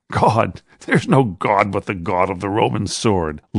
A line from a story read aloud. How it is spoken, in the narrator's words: laughed the centurion, and his men began to laugh also